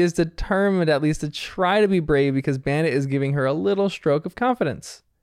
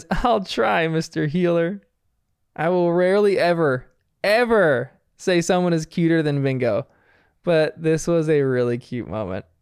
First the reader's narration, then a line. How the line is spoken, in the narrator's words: Missy giggles here and says